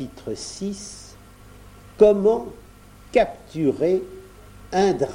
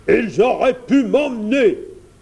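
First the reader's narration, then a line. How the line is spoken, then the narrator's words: Roaring, spitting sparks. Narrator (French): rugit le dragon en crachant quelques étincelles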